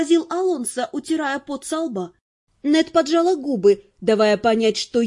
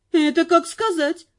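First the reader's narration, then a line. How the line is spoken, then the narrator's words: Grumbled. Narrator (Russian): пробурчала она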